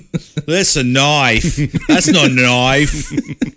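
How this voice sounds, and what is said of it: Put-on Australian accent. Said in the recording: “Have you ever seen Crocodile Dundee? ... A hard accent for me. ... I think you got the accent down.”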